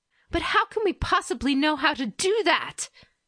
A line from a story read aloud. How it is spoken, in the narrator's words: Hitomi snapped